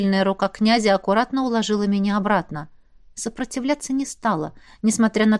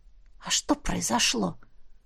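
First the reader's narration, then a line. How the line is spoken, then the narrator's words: Hoarse question. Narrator (Russian): хрипло спросила я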